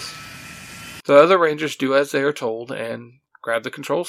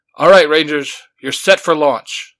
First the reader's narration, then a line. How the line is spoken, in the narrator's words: the general yells into the communicator